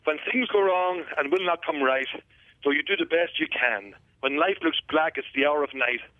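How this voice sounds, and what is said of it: Native Irish accent. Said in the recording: “That's a native accent. ... It is. I'm from Dundalk, so a wee bit north of you”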